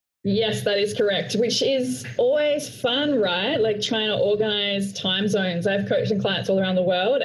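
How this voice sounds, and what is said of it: Australian accent. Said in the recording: “I'm Australian with my Australian accent.”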